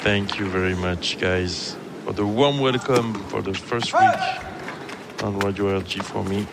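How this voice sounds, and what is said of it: French accent. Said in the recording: “Your accent is like a French symphony.”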